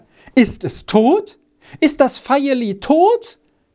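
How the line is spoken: Mother moaning. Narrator (German): Die Mutter stöhnte

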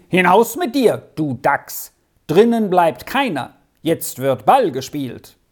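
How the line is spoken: Shouted after running. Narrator (German): der große Eber zurückgerannt kam und rief

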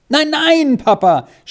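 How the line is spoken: Terrified scream. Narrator (German): schrie Squirrel in völliger Angst auf

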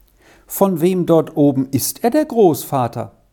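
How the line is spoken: Plain. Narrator (German): fragte Vinzi

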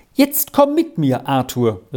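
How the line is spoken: Calling out. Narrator (German): rief sie

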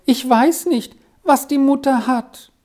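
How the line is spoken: Pitiful sobbing, groaning. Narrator (German): Wiseli schluchzte zum Erbarmen und stöhnte hervor

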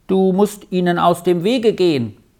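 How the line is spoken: Boy calling out. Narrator (German): rief der Junge

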